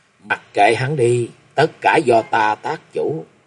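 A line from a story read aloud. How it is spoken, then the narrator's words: Gently smiling. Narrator (Vietnamese): Kim Linh Tử khẽ mỉm cười nói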